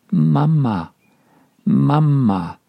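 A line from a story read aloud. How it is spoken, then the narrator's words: Slurred babbling. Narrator (German): lallt Menuchin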